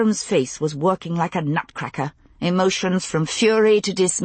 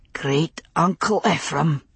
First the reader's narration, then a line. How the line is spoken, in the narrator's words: he whispered